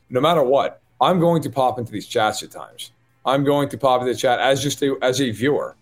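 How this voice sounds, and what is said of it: New York accent. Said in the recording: “a dope with a New York accent”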